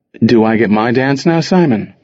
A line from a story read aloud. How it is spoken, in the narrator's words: Rana asked